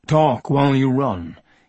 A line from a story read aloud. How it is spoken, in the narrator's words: he said